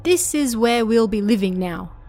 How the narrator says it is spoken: his mother said

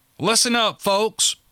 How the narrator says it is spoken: barked Clark

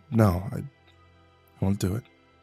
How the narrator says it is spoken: I whispered

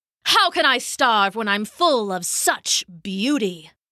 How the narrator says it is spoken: he snapped back

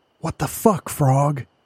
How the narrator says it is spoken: Andy whispered

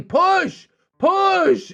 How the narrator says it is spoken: They were yelling

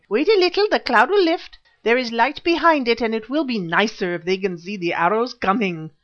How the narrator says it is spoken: the squeaky voice of Imbozwi saying

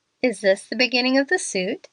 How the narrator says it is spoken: she asked, with a laugh that was a little forced

